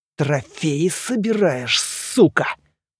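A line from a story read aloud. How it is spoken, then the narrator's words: Hissed through teeth. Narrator (Russian): Процедил Доплер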